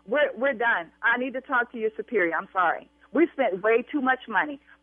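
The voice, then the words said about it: Raised, angry shouting voice. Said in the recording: “I will continue to raise my voice”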